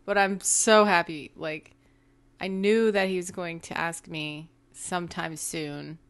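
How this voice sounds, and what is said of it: Tired, flat-sounding voice. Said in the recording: “it's kind of hard to tell in my voice right now, but it's only because I have so much jet lag”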